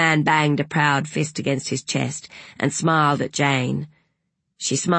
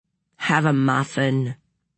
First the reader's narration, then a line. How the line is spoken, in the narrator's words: said Madeline gloomily